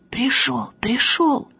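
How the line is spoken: Whispered shout. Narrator (Russian): шепотом кричит

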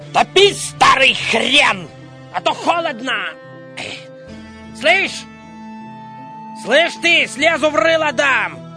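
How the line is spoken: Shouting on waking. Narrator (Russian): просыпаясь, кричал

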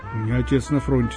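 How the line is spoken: Plain. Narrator (Russian): сказал я

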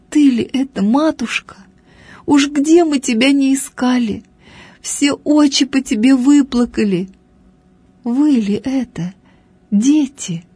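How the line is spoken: Old woman speaking through tears. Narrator (Russian): говорила старушка сквозь слезы

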